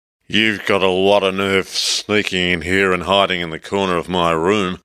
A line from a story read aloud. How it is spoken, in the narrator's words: slurred angrily